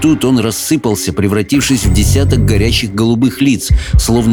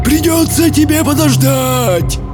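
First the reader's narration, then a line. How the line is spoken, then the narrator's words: Roar. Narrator (Russian): проревел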